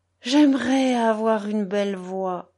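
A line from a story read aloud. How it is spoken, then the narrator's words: Moaning. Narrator (French): gémissait Tsiganok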